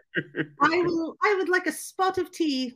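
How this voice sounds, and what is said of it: Bad put-on British accent. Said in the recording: “my British accent is horrendous”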